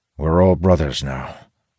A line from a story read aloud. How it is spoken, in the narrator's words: Elias replies grimly